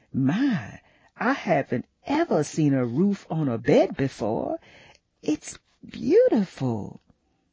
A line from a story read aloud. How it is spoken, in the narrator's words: Juliet gasped